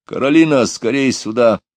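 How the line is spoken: Loud call. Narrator (Russian): громко позвал

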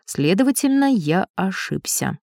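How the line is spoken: Dry. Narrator (Russian): сухо произнес Таратар

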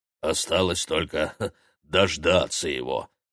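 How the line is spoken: Snort. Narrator (Russian): хмыкнул бородатый оператор

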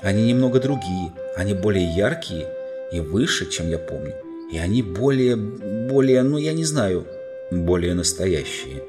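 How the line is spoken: Soft. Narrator (Russian): мягко сказал лорд Дигори

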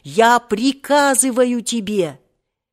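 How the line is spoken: Desperate yell. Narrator (Russian): так как старик колебался, он отчаянно завопил

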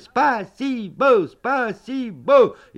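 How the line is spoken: Shouted together. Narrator (Russian): мы закричали

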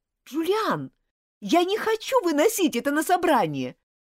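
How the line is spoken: Shouting. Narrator (Russian): крикнула Элизабет

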